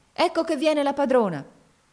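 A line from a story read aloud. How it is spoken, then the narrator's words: Boy shouting. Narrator (Italian): uno dei ragazzi gridò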